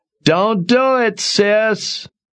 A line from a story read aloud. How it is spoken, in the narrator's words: Obi yelled